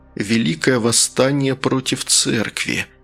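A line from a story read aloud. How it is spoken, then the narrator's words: Whisper. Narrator (Russian): прошептал Фигаро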